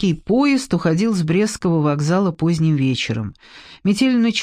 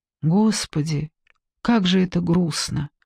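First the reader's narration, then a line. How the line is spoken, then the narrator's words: Quiet speech. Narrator (Russian): тихо проговорила Ксения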